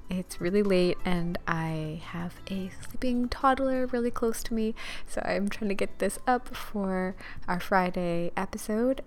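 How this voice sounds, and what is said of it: Speaking very quietly. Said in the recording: “I'm talking really quietly, ... that's why I'm talking a little bit quieter. So, my apologies if you have to uh, turn it up a little bit.”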